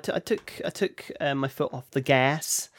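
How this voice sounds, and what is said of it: Bad put-on American accent. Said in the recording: “That was an awful American accent. ... That was terrible. ... I started off in English and then tried to switch to an American accent halfway through the word.”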